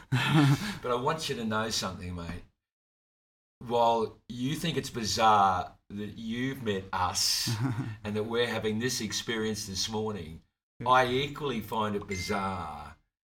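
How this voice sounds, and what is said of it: Australian accent. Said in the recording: “I can hear that Aussie accent”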